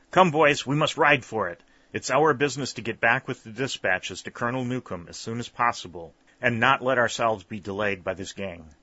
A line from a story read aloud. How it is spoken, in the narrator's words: Whitley exclaimed to his two comrades